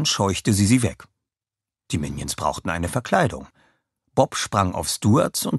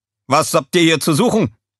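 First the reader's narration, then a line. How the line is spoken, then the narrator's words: Call. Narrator (German): rief einer von ihnen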